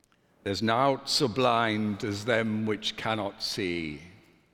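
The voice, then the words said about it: Attempted strong Yorkshire accent. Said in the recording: “best spoken in a strong Yorkshire accent, which I cannot do, but I will try.”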